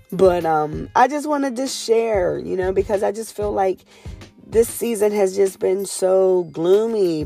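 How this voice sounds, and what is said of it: Raspy voice. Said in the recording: “raspy ass voice. Sounds like I've been smoking cigarettes for 1,000 years.”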